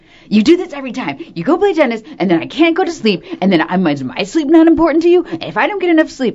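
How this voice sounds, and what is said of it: Acts out her own earlier ranting voice. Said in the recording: “that's a really good impression of you”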